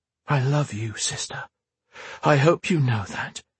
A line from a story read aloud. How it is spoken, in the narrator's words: Raven said softly